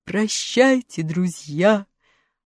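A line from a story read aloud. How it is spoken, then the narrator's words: Roared, lion. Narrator (Russian): проревел лев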